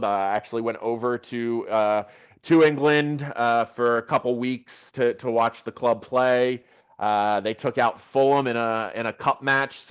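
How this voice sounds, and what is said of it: American accent. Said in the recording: “You can probably tell from my accent that I'm American.”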